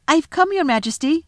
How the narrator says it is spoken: said Edmund, rushing eagerly forward

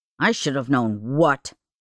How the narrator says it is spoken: Jeff snapped

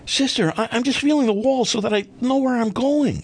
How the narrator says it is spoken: Still stunned, I managed to blurt out

